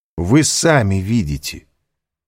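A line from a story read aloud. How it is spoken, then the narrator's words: Firm, sharp. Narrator (Russian): сказал твердо, даже резко Альбер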